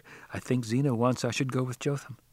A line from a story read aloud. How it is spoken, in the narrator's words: She murmured back